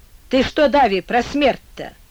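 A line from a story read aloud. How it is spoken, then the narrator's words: Flustered, rough question. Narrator (Russian): И от того, что он растерялся, не умея достойно спросить, умело собрать слова, он вспыхнул и грубо спросил, уже не чинясь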